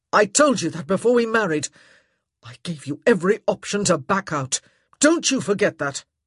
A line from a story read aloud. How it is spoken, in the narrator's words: he said hotly